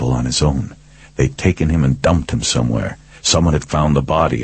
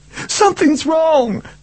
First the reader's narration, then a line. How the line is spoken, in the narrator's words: Charlie wailed